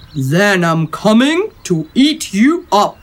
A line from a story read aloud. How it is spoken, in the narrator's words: roared the troll